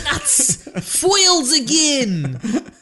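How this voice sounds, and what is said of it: Put-on Boston accent. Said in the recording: “That's my Boston accent, by the way. ... Oh, that's pretty good.”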